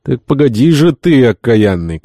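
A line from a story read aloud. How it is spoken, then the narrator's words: Furious shout. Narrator (Russian): капитан крикнул Пен в приступе злобы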